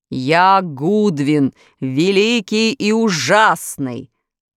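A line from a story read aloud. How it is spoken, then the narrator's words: Beast's roar from distant corner. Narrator (Russian): проревел зверь голосом, выходившим не из пасти чудовища, а из дальнего угла комнаты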